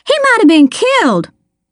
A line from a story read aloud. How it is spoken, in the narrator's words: she snapped